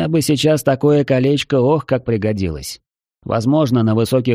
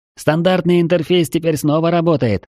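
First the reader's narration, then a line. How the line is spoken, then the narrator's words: Joyful. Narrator (Russian): радостно сообщил Джеб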